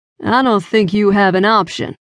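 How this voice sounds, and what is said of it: Rough Southern US accent. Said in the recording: “his horrible, dirty South accent”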